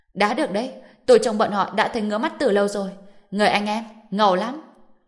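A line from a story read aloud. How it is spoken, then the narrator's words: Excited group yelling. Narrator (Vietnamese): tất cả đều phấn chấn hăng máu, gào thét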